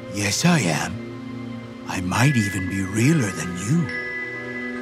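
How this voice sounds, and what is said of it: Full, hearty, overly friendly cartoon voice. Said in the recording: “Its voice made me jump. Full and hearty and unpleasantly friendly. A cartoon voice.”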